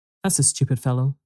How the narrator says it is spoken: said Fred

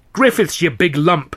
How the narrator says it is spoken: Alf was shouting

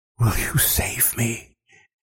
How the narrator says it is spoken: whispers the young man, sobbing

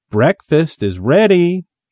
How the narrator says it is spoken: she called brightly

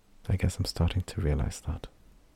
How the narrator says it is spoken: Didikai said quietly

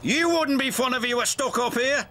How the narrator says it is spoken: snapped Cranky

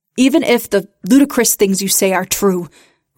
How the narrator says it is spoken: Rich barked

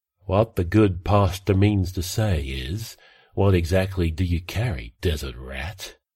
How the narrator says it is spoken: Traveller sighed

